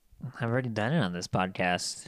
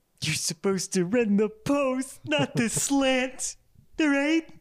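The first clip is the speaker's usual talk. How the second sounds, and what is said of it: Imitates another person's voice. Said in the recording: “your best impression?... It's Harvey Keitel... Harvey Keitel is an NFL football coach.”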